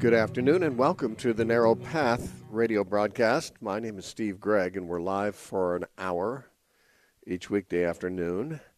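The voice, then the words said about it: Voice not quite normal, sick. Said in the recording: “If my voice doesn't seem quite normal... Had a sick weekend”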